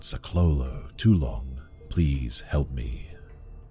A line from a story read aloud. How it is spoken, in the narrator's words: a woman's voice, a desperate whisper, calling out